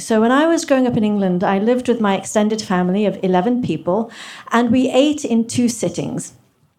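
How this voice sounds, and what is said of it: English accent. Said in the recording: “from Kenya to England, where I got my accent, it's not fake”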